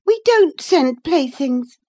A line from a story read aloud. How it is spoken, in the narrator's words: cried Catherine, her pride overcoming her shame